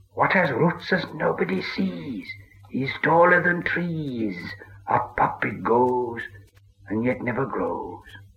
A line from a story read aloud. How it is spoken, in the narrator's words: Gollum hissed